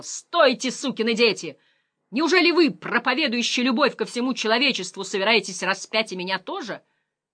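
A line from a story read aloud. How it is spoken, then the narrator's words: Frightened shout. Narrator (Russian): Слыша приближающийся жуткий топот их раздвоенных копыт, я снова закричал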